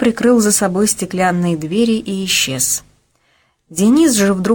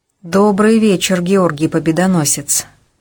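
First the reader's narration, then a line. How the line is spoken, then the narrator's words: Slightly muffled voice. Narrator (Russian): проговорил он глуховатым голосом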